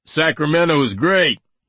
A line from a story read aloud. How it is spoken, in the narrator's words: he shouted